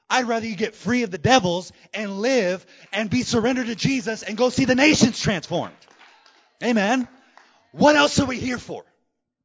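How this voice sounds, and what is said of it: Yelling, loud shouted preaching. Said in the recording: “Sorry for yelling.”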